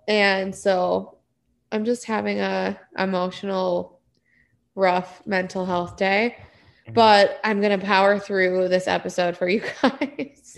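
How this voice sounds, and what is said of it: Voice sounds different after crying. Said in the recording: “my voice sounds a little different. I've been crying a lot today”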